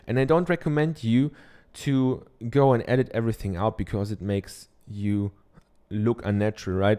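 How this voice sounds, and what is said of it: German accent. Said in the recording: “I'm from Germany, I have a German accent”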